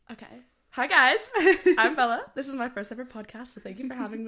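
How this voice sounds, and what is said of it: American accent. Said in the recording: “I'm from America, if you probably tell by the accent.”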